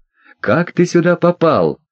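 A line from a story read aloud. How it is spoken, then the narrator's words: Agitated question. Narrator (Russian): взволнованно спросил он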